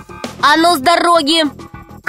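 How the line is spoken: Shouting. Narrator (Russian): крикнул Пашка змее

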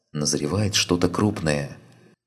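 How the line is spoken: Whisper. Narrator (Russian): Лена, покосившись на нее с опаской, шепотом произнесла

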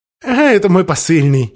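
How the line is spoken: Giggle. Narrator (Russian): хихикнул

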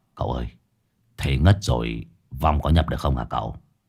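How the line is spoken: Whispering in ear. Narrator (Vietnamese): Hải nghẹo thì thầm vào tai cậu

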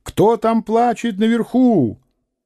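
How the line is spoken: Shouting with all strength. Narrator (Russian): насколько было сил, крикнул

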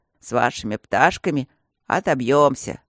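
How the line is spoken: Deep bass voice. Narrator (Russian): пробасил кто-то из больных

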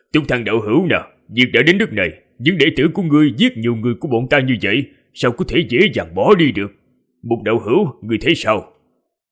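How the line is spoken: Loud laughing speech. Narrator (Vietnamese): Thân Đồ Nam cười lớn rồi nói

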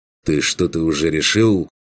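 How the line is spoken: Calm question. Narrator (Russian): спросил он, спокойно

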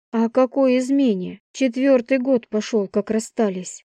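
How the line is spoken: Sighing. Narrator (Russian): вздохнул

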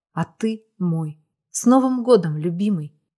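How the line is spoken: Whisper. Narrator (Russian): прошептала

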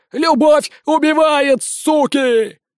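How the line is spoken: Frantic screaming. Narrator (Russian): Истошно вопил фея

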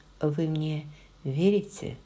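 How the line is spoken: Plain. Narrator (Russian): спросила она

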